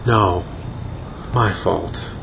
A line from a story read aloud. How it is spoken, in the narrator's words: Luna muttered